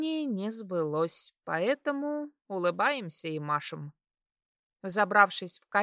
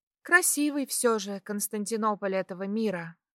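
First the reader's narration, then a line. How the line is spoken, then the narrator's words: Sighing. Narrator (Russian): вздохнула я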